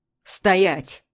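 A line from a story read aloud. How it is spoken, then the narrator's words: Angry barking shout. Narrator (Russian): Зло рявкает ворон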